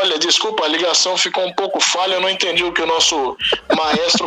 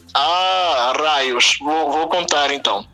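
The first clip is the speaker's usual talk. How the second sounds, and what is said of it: Put-on Portuguese accent. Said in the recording (Portuguese): “conte ela com, com sotaque português”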